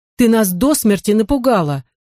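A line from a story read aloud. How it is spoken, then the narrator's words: Exclaimed. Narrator (Russian): воскликнул Хюмейра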